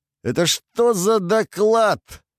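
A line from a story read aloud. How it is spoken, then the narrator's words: Roar. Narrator (Russian): взревел Гуда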